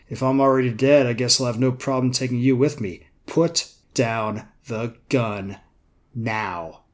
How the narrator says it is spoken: she put on her command face and said in her best captain voice

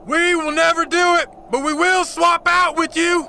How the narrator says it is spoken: Cherokee Bill shouted back

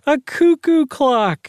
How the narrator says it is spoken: Doris cried

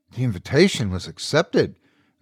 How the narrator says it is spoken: the butler said, perturbed yet gently reminding

